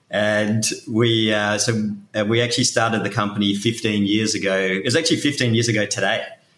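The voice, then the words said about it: Australian accent. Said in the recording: “in case you couldn't tell from my accent, I'm Australian”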